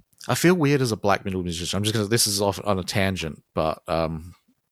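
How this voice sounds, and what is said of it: Australian accent. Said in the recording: “because I'm Australian, I don't have that sweet Norwegian accent... my Australian accent”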